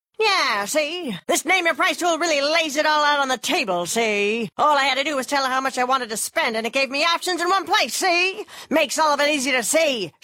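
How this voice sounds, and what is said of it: 1930s gangster voice. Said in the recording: “this is my impression of a 1930s gangster”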